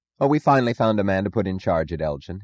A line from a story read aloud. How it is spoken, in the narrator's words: he said, forcing his voice to sound confident